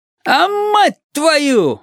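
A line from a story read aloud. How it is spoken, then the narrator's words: Yelling. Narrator (Russian): вопит Лиман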